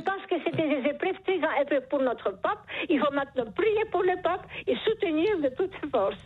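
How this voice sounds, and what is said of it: Charming foreign accent in French. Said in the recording (French): “Vous avez un charmant accent ... ce joli accent”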